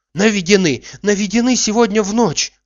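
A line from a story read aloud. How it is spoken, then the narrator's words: Joyful. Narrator (Russian): радостно сказала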